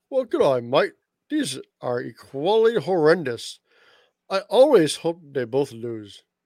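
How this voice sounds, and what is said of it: Christian Wade accent impression. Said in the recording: “That was my Christian Wade accent.”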